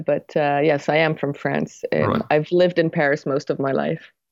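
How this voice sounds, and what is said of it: Mixed French, American and English accent. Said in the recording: “I'm half French, half American, and I've lived in England for a while, which is why I have a weird twang, a weird accent, ... a bit of a mix of everything”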